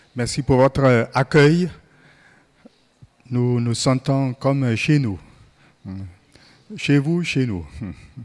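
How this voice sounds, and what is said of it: German-African accent in French. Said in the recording (French): “mon accent allemand-africain”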